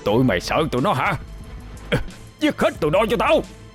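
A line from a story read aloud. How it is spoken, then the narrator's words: Roaring. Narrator (Vietnamese): A Phủ hắn gầm lên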